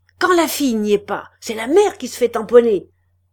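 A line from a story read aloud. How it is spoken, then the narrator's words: Shouted. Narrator (French): cria Chaval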